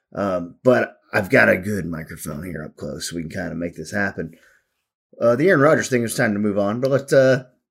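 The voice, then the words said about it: Hoarse, strained voice. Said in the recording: “I'm battling my second bout of laryngitis in about 2 weeks ... Laryngitis is weird. You're not sick. It's just that your vocal cords are swollen and overused. So basically, I've been talking too much.”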